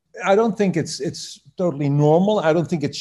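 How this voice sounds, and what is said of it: Usual voice. Nothing is said of it.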